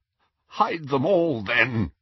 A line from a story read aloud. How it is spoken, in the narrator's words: he croaked